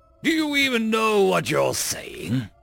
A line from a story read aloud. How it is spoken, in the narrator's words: He asked, trying and failing to control his laughter